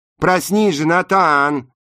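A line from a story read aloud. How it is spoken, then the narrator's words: Yelling. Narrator (Russian): заорал Макс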